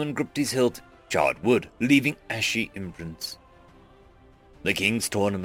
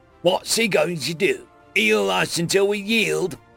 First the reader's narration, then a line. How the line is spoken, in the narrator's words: the goblin fighter jeered